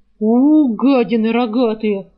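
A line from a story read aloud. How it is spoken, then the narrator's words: Growl. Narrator (Russian): зарычал он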